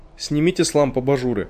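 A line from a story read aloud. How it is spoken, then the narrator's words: Plain. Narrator (Russian): сказал он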